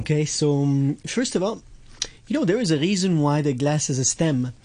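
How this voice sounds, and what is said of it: French accent. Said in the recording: “It's my French accent. What can I do? I was born this way”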